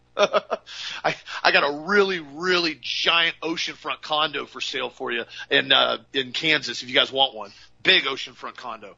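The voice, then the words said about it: Sarcastic delivery. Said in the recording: “Obviously, I'm being sarcastic.”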